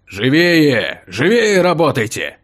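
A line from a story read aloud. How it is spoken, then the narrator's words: Angry bark. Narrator (Russian): Сердито рявкнул стражник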